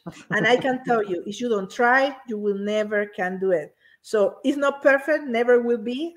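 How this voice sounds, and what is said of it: Non-native English accent. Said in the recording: “my English is my second language ... I always will have this accent”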